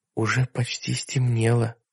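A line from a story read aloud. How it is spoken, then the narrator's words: Whisper. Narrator (Russian): прошептала Сэнди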